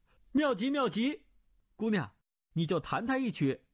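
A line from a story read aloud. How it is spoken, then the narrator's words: Calling out. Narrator (Chinese): 段誉叫道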